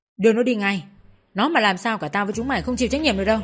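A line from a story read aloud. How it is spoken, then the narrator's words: Shouting. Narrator (Vietnamese): Tên cầm đầu táo quát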